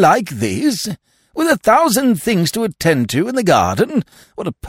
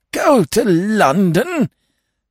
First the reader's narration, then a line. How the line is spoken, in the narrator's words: gasped Lord Emsworth, appalled